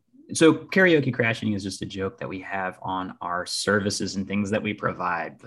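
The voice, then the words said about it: Hoarse voice. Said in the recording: “my voice is hoarse right now.”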